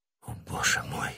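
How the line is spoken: Whisper. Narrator (Russian): прошептал Фельтон

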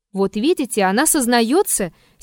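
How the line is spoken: Angry exclamation. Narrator (Russian): сердито воскликнул Петр

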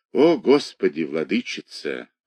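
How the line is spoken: Sigh. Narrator (Russian): вздохнул Пантелей

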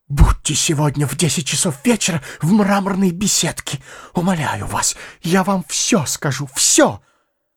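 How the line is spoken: Whisper. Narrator (Russian): Прошептала

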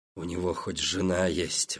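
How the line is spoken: Sudden growl. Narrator (Russian): вдруг прорычал он

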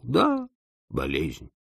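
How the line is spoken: Casual agreement. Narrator (Russian): согласился я небрежным тоном

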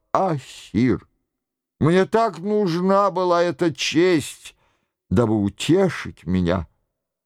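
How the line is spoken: Whispered. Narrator (Russian): прошептав

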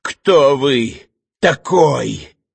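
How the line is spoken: Hoarse, muffled question. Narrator (Russian): хрипло и глухо спросил Иван

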